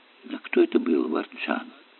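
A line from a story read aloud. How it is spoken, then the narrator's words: Soft question. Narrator (Russian): мягко спросил Эллери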